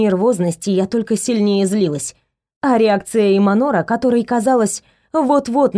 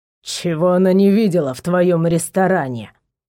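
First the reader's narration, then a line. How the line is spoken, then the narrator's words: Hissed through teeth. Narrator (Russian): процедил он в сторону Варгора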